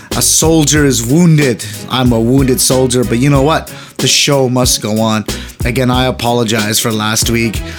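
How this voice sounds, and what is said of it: Sick-sounding voice. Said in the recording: “as you can tell by my voice, I'm still very, very sick.”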